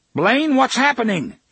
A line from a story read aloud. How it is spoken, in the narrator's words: he shouted